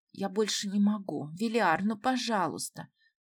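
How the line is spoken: Woman pleading. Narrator (Russian): взмолилась женщина

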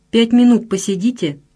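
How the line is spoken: Dry, curt bearded man. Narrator (Russian): сухо сказал бородатый

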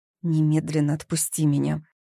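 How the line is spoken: Hissed. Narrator (Russian): зашипела Зои

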